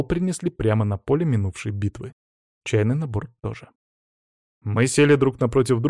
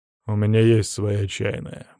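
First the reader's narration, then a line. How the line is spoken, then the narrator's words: Gruff mutter. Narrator (Russian): буркнул в ответ Медведев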